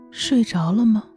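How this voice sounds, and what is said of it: Soft, low-voiced woman's question. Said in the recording (Chinese): “美人又低声问道”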